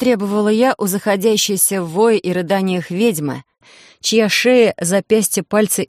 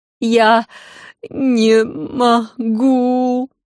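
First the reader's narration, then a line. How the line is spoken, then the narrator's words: Wailing through sobs. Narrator (Russian): провыла Серафина и вновь зашлась в рыданиях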